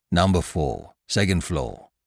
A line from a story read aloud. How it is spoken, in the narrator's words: grunted out